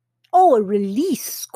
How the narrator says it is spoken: scoffs Duryodhana

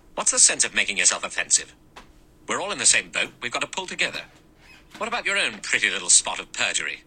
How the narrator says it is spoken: Philip Lombard said quickly and angrily to Blore

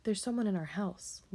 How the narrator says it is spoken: Lisa gasped

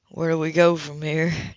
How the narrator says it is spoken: Judd asked in a subdued tone

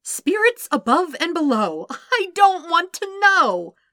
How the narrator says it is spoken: Sokka whined

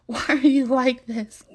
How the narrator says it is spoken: Kaya laughs

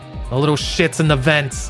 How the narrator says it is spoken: One shouted

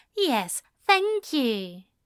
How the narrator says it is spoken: Aziraphale said in a much kinder voice

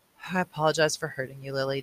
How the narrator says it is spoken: Jonas mumbled

